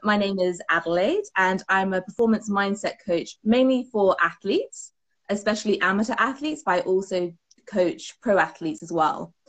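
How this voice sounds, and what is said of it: British accent. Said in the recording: “Love that accent. ... I am from the UK, from my accent.”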